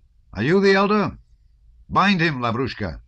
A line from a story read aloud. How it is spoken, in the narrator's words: shouted Rostov, as if that order too could not possibly meet with any opposition